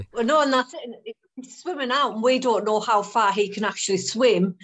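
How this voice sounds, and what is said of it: Strong Geordie accent. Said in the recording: “very obviously Geordie accent”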